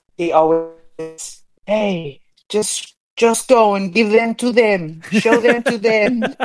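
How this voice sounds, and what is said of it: Good put-on Fijian accent. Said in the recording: “you do the Fijian accent so well.”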